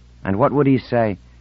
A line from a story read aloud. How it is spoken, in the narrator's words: said Insigna bitterly